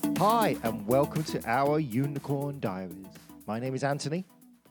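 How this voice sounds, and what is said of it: Exaggerated radio announcer voice. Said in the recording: “What the hell was that? ... That was my radio voice”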